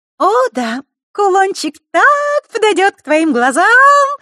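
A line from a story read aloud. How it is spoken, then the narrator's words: Sweet sing-song voice. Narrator (Russian): Сладким голоском пропела невесть, откуда взявшаяся Захарра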